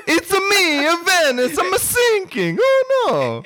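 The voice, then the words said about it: Exaggerated mock Italian accent. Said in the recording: “a racist Italian accent”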